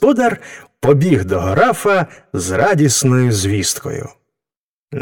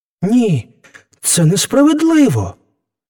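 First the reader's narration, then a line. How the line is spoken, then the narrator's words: Young man exclaiming. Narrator (Ukrainian): вигукнув юнак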